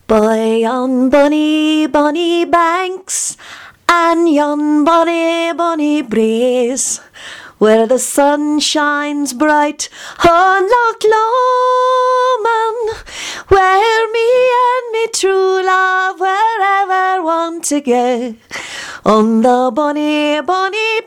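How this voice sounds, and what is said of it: Sung put-on Scottish accent. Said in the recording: “trying out her Scottish accent and singing Loch Lomond”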